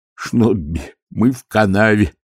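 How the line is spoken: Groaning. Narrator (Russian): простонал он

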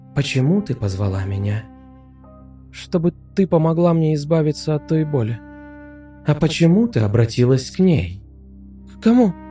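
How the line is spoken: Frightened question. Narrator (Russian): испуганно спросила Александра

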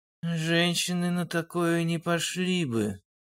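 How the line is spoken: Gloomy guess. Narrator (Russian): мрачно предположил Олег

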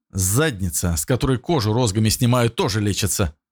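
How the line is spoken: Snort. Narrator (Russian): хмыкнул Ян

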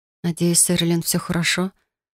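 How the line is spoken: Frightened whisper. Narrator (Russian): прошептала испуганно

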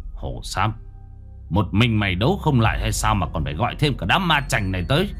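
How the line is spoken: Harsh, forceful. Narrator (Vietnamese): Gã gằn giọng

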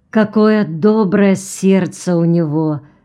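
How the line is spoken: Sigh. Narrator (Russian): вздохнула Мэри Макленнон

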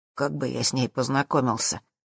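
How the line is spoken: Honest deep bass. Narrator (Russian): ответил Зак своим честным басом

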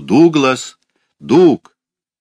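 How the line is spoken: Loud call. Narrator (Russian): Мать снова громко позвала в темноту

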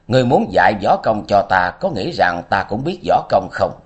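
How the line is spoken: Loud laugh. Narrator (Vietnamese): Lý Kiếm Minh cười lớn một tiếng, nói

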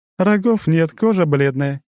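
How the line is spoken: Giggling. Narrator (Russian): хихикнула она

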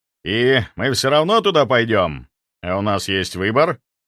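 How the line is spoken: Snorting. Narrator (Russian): Инквизитор хмыкнул

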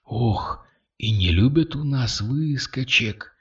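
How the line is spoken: Whispered. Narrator (Russian): прошептала Кристина

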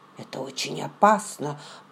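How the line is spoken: Muttering to himself. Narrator (Russian): пробормотал он, словно разговаривая сам с собой

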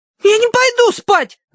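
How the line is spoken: Wail. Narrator (Russian): завопила Агнес

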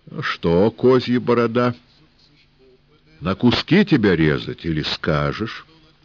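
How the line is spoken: Calm steady threat. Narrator (Russian): Барышник, похоже, был мужик тертый, сказал спокойно, без дрожи

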